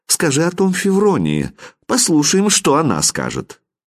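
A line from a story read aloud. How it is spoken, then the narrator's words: Calm reply. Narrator (Russian): А князь спокойно отвечал им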